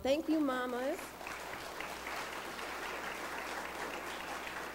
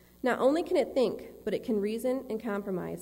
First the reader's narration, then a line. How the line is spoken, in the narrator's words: said the Creator